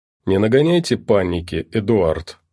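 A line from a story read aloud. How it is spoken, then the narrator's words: Calm reply. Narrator (Russian): спокойно ответил доктор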